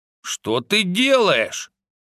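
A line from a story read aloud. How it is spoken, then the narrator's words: Snapping retort. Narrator (Russian): огрызнулся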